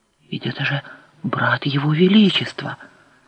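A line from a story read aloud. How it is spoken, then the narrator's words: Whispered. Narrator (Russian): прошептала Неан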